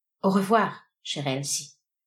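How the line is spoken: Murmuring. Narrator (French): murmura le milliardaire

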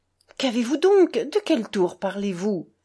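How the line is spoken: Frightened exclamation. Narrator (French): s'écria Alyosha, effrayé pour de bon

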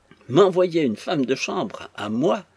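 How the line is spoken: Exclamation. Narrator (French): s'écria Mrs

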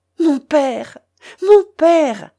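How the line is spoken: Exclaimed. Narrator (French): s'écria Ivanhoé

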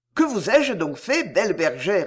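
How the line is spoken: Plain. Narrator (French): lui dit-il

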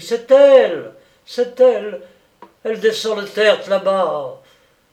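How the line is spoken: Shouting. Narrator (French): cria-t-il

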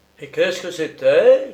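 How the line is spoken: Shouting. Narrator (French): criai-je

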